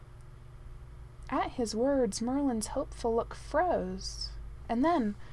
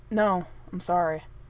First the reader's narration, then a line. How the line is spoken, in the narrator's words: said the prince firmly